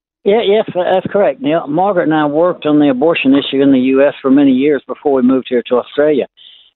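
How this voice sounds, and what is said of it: American accent. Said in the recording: “your American accent”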